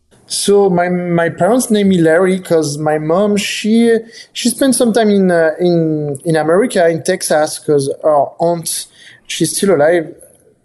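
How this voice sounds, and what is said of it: French accent. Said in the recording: “you are 100% French ... they hear your accent”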